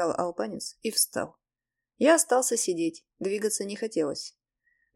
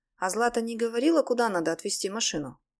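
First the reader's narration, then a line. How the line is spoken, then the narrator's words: Sudden quick question. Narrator (Russian): вдруг быстро спросил Белуши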